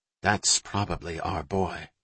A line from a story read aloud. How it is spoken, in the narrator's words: Jack said quietly